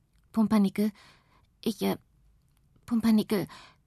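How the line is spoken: Stuttering. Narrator (German): stottert

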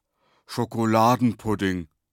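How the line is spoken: Loud. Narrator (German): sagte laut

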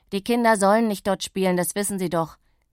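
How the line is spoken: Angry call. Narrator (German): rief er verärgert Pittis Mutter zu

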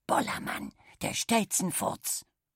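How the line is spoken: Whispered. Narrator (German): Kali flüsterte

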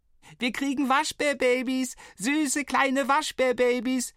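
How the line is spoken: Roaring. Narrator (German): brüllte Flo

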